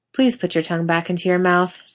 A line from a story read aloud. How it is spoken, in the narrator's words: Jensen says blandly